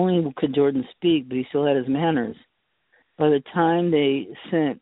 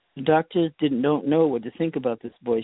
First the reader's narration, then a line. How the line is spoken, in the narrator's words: she said